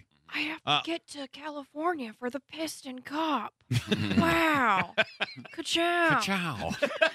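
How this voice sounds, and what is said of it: Owen Wilson impression. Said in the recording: “your Owen Wilson impression”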